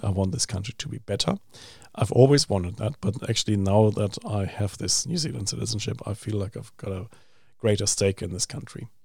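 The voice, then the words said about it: Foreign non-New Zealand English accent. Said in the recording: “you're lucky you don't have the accent ... it doesn't certify that I have lost my accent ... people who I've never met before ask me whether I was Irish or Austrian or um, Canadian”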